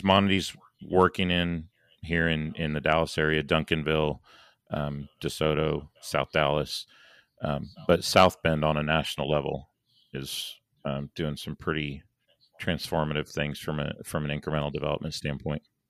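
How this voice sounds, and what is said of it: Hoarse, fading voice. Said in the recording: “I started losing my voice ... here at the end.”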